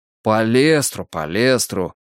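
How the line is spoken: Grumbling. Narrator (Russian): проворчал Двуха

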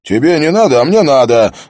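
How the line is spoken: Yelling. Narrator (Russian): заорал Харри

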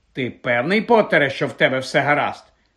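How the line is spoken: Sharp question. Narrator (Ukrainian): різко запитала професорка МакГонагал

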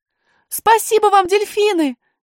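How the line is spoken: Shouting. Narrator (Russian): крикнула Алиса

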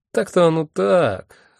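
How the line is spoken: Confused drawl. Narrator (Russian): растерянно протянул Мэсэн

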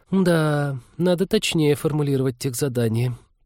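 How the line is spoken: Muttered. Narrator (Russian): пробормотала девушка

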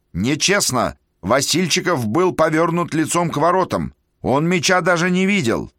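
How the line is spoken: Multilingual indignant shouting. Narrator (Russian): Капитан русской команды на 3 языках, по-английски, по-немецки и по-французски, кричал

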